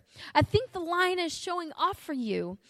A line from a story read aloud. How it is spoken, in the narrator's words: shouted